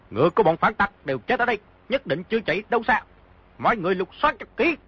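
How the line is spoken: Shout. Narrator (Vietnamese): một người quát

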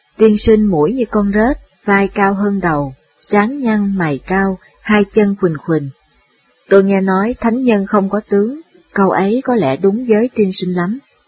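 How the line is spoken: Smiling. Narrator (Vietnamese): Đường Cử mỉm cười nói rằng

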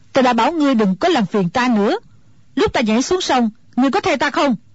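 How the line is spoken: Old woman, angry. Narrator (Vietnamese): Mụ già tức giận nói

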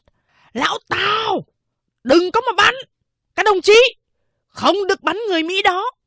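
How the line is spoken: Shouted. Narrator (Vietnamese): Lỗ Lập Nhân quát

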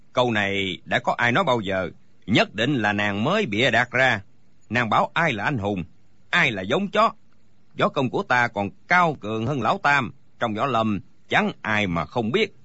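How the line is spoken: Furious booming shout. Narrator (Vietnamese): Đinh Bất Tứ tức quá, quát lên oang oang

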